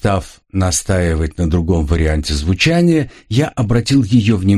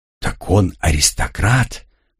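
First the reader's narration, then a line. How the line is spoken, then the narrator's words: Muttered, young woman. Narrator (Russian): пробормотала девушка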